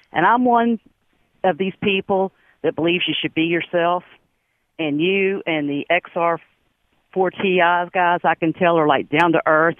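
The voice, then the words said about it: Strong West Virginia accent. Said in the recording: “somebody said that I needed an interpreter ... I was born and raised here ... I can't do anything about the accent”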